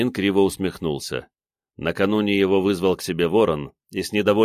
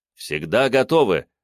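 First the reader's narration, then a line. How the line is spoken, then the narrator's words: Barked. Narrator (Russian): гаркнул Фомин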